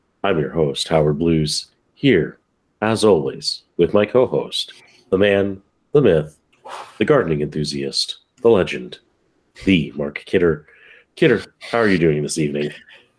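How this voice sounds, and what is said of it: Calm public-radio announcer voice. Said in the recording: “goes completely to NPR voice.”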